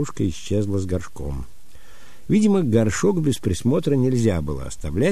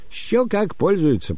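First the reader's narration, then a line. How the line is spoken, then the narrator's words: Almost cheerful old woman. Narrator (Russian): почти весело ответила старушка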